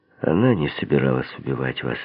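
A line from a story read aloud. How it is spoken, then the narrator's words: As gently as possible. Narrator (Russian): сказал я по возможности мягко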